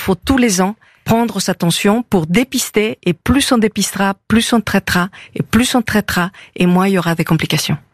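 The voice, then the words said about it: Slight Mexican accent in French. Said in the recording (French): “Vous avez un petit accent d'Amérique du Sud, je crois. ... Amérique du Nord. Nord, le Mexique.”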